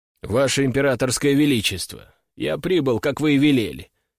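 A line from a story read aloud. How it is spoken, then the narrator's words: Dry, formal. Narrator (Russian): сухо сообщил Сергей Захарович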